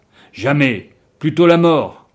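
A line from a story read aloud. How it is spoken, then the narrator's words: Exclaimed. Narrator (French): s'exclamait-il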